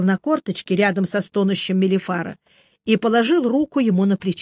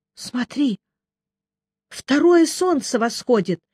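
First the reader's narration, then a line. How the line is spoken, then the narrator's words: Hoarse. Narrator (Russian): хрипло сказал Мелифара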